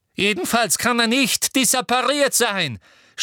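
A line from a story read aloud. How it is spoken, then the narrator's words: Shouting. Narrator (German): schrie Umbridge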